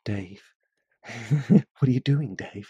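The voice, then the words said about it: Impression of HAL 9000. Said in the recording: “that is my attempt at impersonating Hal”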